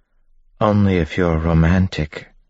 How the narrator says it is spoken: Beldra said, smiling wistfully

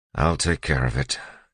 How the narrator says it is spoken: Elend said, sighing

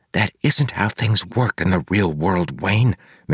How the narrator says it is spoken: Marcy whispered

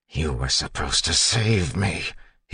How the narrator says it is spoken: he hissed

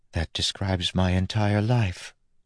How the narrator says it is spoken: Steris said softly

